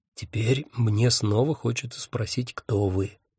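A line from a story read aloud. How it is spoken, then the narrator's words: Whispered. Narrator (Russian): шепнул Анатоль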